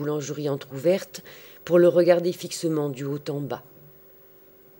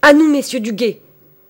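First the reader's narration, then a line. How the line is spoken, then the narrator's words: Shouted. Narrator (French): cria Gringoire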